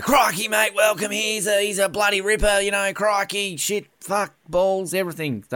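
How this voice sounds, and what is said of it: Exaggerated stereotypical Australian accent. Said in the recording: “very Steve Irwin sounding Australian stereotypical voices”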